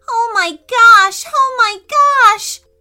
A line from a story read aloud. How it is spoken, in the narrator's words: they both exclaimed